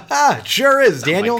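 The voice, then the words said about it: Newscaster voice. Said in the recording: “I got my news voice on ... Is that your newscaster voice?”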